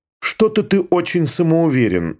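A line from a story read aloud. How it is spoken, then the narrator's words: Angry. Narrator (Russian): сердито сказала она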